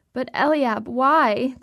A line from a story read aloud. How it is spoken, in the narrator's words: the woman pleads